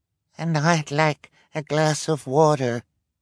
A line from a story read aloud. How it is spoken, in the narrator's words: the woman said in a weak voice